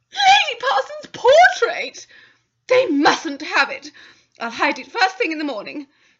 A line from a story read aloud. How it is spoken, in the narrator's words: said wildly